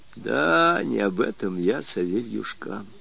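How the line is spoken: Dejected interruption. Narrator (Russian): Упавшим голосом перебил его Мишка

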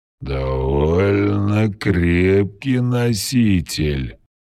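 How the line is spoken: Curious drawl. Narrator (Russian): с любопытством протянул скользящий

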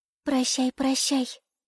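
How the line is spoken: Swallow's whisper. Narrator (Russian): прошептала ласточка

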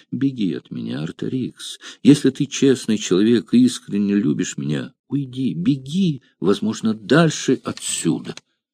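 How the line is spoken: Soft but insistent. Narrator (Russian): мягко, но в то же время настойчиво говоря ему

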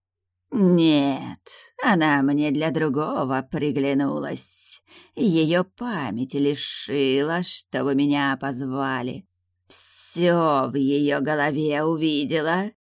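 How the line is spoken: Eerie creature giggle. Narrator (Russian): жутко хихикнула тайгуча

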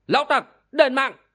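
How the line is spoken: Sudden vengeful shout. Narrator (Vietnamese): Thiên Long biết rằng thời cơ trả thù đã đến, bất thần quát lên

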